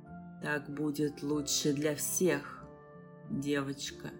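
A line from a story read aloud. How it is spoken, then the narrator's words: Hoarse. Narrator (Russian): сказал он хрипло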